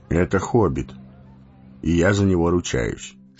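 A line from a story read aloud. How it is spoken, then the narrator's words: Calm reply. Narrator (Russian): спокойно ответил Гэндальф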